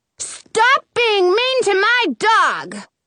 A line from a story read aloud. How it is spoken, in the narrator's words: I yell